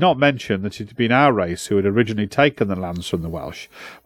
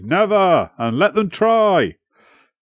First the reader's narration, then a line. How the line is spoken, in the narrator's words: some amongst us shouted